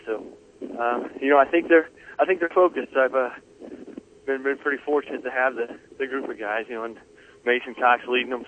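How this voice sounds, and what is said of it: Breathless, out-of-breath speech. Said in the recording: “I'm out of breath. We're moving pretty quick on the course here.”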